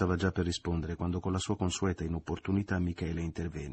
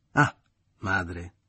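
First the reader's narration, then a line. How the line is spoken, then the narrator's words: Mocking parody exclamation. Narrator (Italian): esclamò parodiando le parole che Maria Grazia aveva proferito prima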